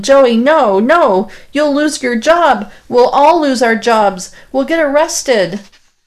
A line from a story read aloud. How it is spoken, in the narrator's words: it's me yelling